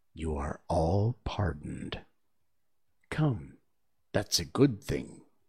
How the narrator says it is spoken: the king say in a low voice to the company generally

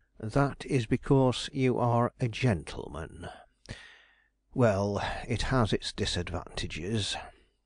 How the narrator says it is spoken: he muttered broodingly

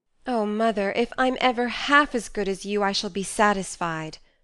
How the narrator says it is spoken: cried Joe, much touched

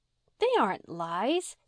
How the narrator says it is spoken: said Di indignantly

